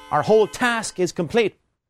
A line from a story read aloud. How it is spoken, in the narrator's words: he shouted